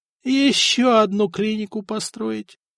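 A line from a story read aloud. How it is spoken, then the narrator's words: Groaned. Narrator (Russian): простонал Леонтий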